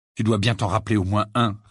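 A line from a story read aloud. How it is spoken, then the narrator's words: Annoyed tone. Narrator (French): répondit Harry d'un ton agacé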